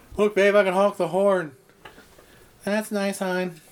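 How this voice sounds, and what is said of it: Imitated weary woman's voice. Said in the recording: “That's a really good Pam Anderson impression you did there ... my stock. Woman who has been with a man for too long”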